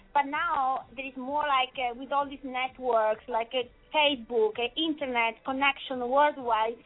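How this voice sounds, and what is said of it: Sweet, cute foreign accent. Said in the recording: “your accent is so sweet and beautiful and cute”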